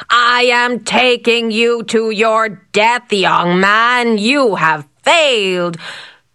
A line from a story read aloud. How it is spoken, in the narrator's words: the huge man bellowed